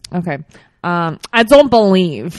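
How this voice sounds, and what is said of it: Put-on New Yorkerican accent. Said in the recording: “do it in a New Yorkerican accent”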